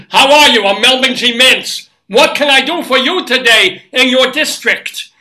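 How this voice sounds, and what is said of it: Loud, friendly older man character voice. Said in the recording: “do the voice of what I think Melvin G. Mintz is, which is this incredibly friendly, loud, oversharing, half-deaf Jewish older man”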